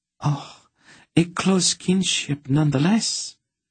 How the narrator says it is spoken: she approved warmly

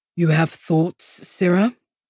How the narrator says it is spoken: Nathanos drawled, clearly poking at her

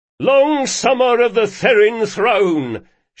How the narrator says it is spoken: shouted Carlo

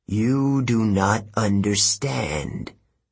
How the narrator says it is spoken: Athena said coldly

